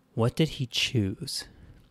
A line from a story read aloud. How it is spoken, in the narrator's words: Amy breathed in before asking